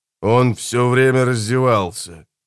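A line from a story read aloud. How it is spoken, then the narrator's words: Grim. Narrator (Russian): мрачно сообщил Джонни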